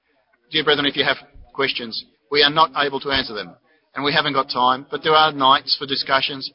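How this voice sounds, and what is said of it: Foreign-accented English. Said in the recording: “Maybe I translated too quickly too for you, for my foreign accent.”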